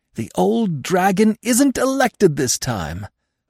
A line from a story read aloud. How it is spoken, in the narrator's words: I added triumphantly